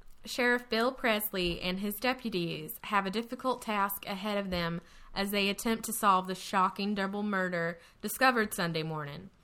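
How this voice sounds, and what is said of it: Put-on Texan accent. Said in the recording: “should I read this in a Texas accent? ... Can you do a Texan accent?”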